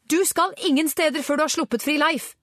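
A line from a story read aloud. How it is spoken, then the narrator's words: Shouted. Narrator (Norwegian): ropte Angela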